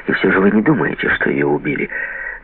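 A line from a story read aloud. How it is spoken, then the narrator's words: Deep sigh, asking. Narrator (Russian): Я глубоко вздохнул и спросил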